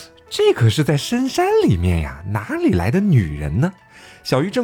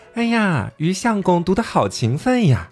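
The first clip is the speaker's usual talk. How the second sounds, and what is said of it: Sweet, coquettish female voice. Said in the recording (Chinese): “娇滴滴的声音”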